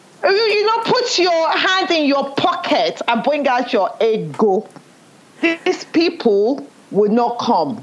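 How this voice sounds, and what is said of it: Nigerian accent. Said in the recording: “my Nigerian accent has come out”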